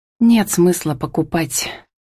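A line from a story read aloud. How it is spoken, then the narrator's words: Muttered to herself. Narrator (Russian): хмыкнула про себя Камила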